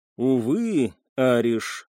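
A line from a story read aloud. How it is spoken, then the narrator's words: Sad smile. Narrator (Russian): грустно улыбнулся Лио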